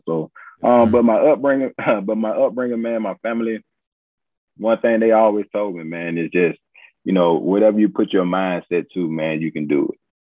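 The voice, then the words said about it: Alabama Southern accent. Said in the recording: “you sound like you from Alabama”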